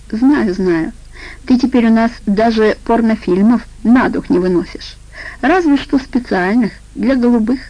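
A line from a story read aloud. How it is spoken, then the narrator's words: Laughing. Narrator (Russian): засмеялась она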